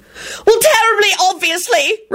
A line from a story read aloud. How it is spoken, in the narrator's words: Rosie shrieked and started bawling again